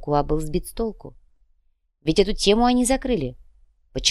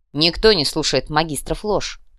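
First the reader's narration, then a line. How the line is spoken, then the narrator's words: Snorting remark. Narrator (Russian): хмыкнул Утон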